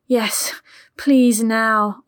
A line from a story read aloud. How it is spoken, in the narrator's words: Ollie begged